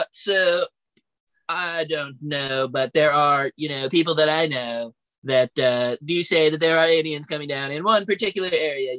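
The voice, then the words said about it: Imitates another person's voice. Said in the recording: “Let me do an impression. ... That sounds like a Rothschild or something. That doesn't sound like Donald Trump.”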